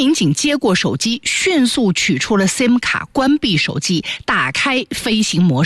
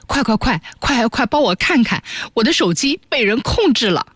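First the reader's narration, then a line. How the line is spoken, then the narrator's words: Breathless tearful woman. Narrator (Chinese): 一名女子 上气不接下气 带着哭腔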